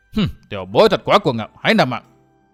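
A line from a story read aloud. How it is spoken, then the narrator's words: Angry bellow. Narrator (Vietnamese): Thương thiếu lão Hồng tức giận trừng mắt quát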